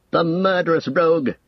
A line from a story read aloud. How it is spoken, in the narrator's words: cried Eomer